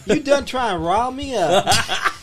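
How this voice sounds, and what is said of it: Good put-on Southern accent. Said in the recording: “He does a pretty good southern accent”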